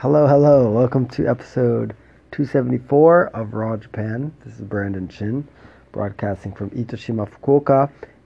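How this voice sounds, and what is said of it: Hoarse, nearly lost voice. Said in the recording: “my voice is just gone.”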